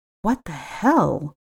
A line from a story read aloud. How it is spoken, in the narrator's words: murmured